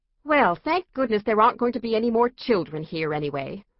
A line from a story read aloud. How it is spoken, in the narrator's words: said Randy crossly